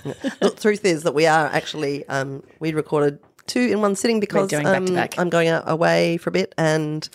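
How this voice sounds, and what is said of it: Voice sounds unwell. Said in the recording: “my voice is really not very improved from the last podcast ... You still sound quite unwell.”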